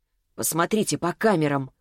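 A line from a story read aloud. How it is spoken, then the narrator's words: Wry snort. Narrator (Russian): хмыкнула она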